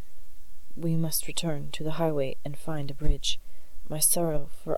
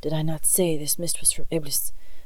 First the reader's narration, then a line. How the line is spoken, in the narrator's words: growled Husin